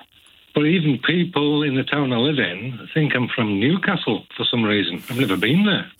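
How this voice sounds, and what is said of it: Orcadian-Cumbrian accent, slight Geordie twang. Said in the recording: “I did think it was a Geordie accent or slight twang of Geordie accent. It's a lovely accent. ... It's kind of a mixture between Orcadian and Cumbrian”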